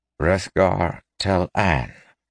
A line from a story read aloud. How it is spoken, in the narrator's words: clarified Layman, his voice hollow